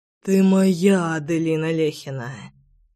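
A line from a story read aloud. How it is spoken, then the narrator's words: Rough hoarse beast. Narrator (Russian): грубовато прохрипел зверь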